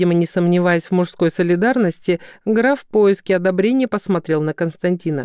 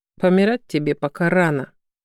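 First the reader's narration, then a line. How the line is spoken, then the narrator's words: Grim. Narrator (Russian): мрачно отметил Краснов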